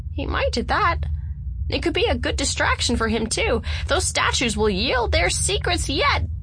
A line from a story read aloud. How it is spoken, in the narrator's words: chirped